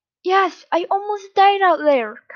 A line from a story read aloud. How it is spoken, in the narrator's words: Kamurai cried